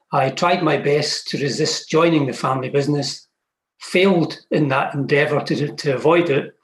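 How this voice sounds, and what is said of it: Scottish accent. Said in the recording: “based in Scotland, as you could probably guess from the accent.”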